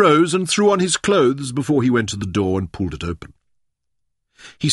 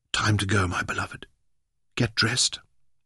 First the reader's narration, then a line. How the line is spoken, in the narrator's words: Leon whispered